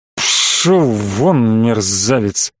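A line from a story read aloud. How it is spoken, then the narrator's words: Sleepy, dismissive. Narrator (Russian): сонно отмахнулся Бренников от раздражающего шума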